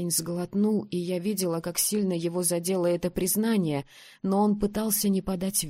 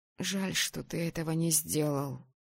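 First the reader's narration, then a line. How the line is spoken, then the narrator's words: Muttered. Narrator (Russian): пробормотала я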